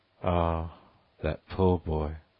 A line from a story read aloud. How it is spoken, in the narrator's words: sighed Mrs